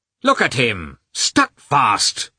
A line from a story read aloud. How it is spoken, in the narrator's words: shouted the clerk angrily at the peasant